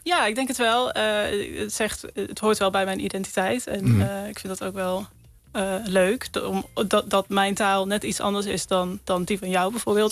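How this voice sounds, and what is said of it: Light Brabant accent, soft G. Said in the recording (Dutch): “ik heb denk ik nog wel een licht Brabants accent ... de zachte G ... Brabants R”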